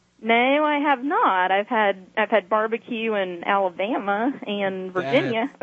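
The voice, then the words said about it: Southern American accent. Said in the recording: “she sounds Southerner ... I love her accent.”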